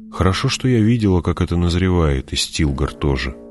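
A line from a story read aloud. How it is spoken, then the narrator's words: Muttered. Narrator (Russian): пробормотала Джессика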